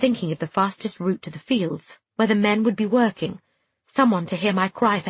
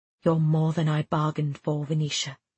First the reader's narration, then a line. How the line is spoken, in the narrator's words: he said quietly